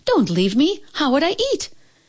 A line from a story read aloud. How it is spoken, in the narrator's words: gasped Chin Yu Min